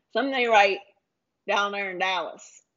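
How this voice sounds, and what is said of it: Put-on Texas accent. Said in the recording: “Not a good Dallas accent either... I thought it was good... Was it a good Texas accent?”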